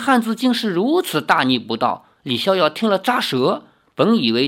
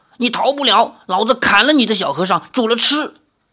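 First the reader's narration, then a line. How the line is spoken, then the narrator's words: Angry threatening shout. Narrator (Chinese): 那汉子怒视智泽，哄道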